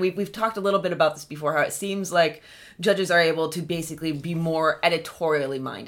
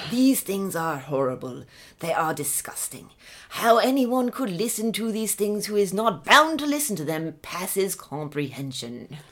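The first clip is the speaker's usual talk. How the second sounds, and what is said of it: Bad put-on British accent, rolled R. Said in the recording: “I'm gonna try the British accent again ... It's horrible. It's bad. ... I think you're trying to roll the R.”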